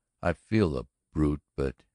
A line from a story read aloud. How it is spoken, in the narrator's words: said gravely